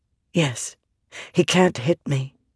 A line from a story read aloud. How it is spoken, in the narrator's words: she whispered